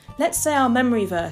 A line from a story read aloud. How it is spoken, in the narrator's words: shouted